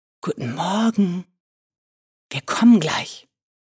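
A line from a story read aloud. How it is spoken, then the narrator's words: Whispering. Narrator (German): flüsterte ihm zu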